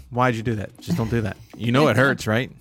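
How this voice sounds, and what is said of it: Imitates another person's voice. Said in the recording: “my mom would look at me and go”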